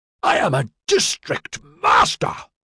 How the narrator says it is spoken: Bice yelled furiously

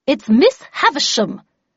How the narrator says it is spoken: replied Havisham in a vexed tone

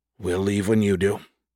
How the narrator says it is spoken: Hilo said softly

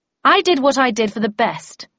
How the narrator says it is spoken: I said in a loud voice, feeling I had to defend myself against Tweed

